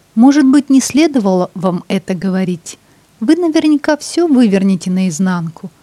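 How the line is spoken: Laughing. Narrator (Russian): рассмеялась Ингрид

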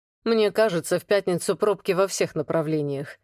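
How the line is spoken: Wry hmph. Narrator (Russian): хмыкнул Влад

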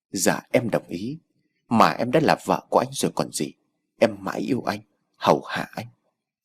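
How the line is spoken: Gentle. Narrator (Vietnamese): Tám dịu dàng

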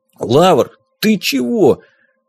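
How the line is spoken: Half-choked wheeze. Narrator (Russian): полузадушенно прохрипел Никита

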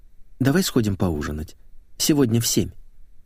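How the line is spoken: Quiet suggestion. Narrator (Russian): Секретарша тихо предложила

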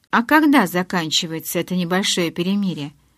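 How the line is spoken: Plain. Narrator (Russian): спросил Джейкоб

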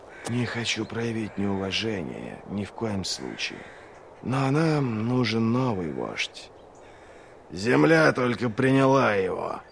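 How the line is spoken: Hissed. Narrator (Russian): прошипел Доу

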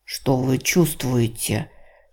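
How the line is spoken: Whispered question. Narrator (Russian): шепотом спросил волшебник

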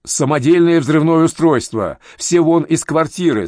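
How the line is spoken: Yelled. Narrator (Russian): заорал Селитто

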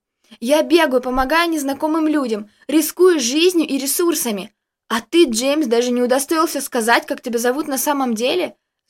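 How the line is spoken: Full-voiced yell. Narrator (Russian): заорала она во весь голос

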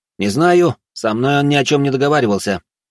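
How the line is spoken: Dry remark. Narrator (Russian): сухо заметил Олег

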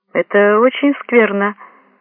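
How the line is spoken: Cheerful woman's voice. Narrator (Russian): бодрым голосом сказала женщина

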